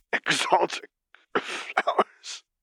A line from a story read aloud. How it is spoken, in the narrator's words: Vader wheezed